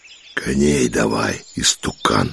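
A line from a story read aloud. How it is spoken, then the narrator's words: Wheezing rasp. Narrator (Russian): просипел он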